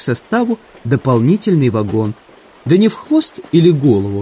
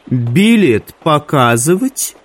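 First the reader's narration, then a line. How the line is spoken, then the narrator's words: Mocking question. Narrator (Russian): насмешливо осведомилась ведьма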